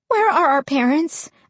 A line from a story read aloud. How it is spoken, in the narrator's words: I asked anxiously